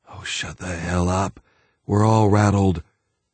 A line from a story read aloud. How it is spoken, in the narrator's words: a young lieutenant sighed